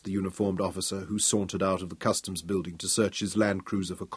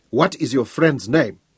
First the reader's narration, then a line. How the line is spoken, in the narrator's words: asked eagerly